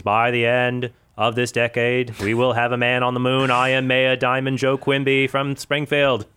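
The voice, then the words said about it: Imitates another person's voice. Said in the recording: “That is a very good Ted Kennedy imitation.”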